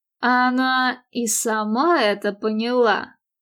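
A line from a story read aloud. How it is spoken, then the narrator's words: Snorting. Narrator (Russian): хмыкнул Патрик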